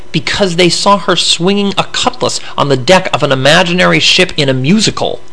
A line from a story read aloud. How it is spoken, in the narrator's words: Nadia spat